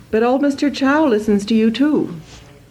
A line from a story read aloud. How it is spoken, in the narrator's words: I cried